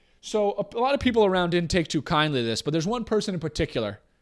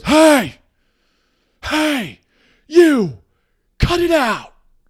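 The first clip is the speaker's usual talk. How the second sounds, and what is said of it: Stern dad voice, shouting. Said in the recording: “put on his dad voice”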